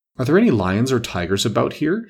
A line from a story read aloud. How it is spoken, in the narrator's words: She asked timidly